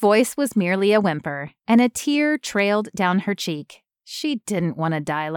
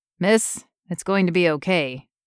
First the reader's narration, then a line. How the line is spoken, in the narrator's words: the voice said